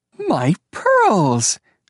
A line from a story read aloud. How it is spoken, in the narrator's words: Flora Baumbach exclaimed with delight